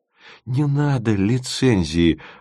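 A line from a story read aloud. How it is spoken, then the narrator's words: Pleading. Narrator (Russian): взмолился Тимофеев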